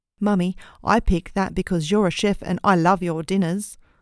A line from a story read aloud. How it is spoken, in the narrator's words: my son exclaimed, a huge smile plastered on his face